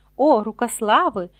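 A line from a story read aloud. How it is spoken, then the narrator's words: Exclamation. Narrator (Ukrainian): вигукнув містер Боджен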